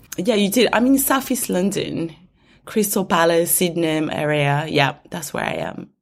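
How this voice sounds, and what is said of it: Rusty, slightly husky voice. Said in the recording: “I have a little bit of a cough, so my voice is a little bit rusty, but I hope sexy ... I love a bit of sexy voice”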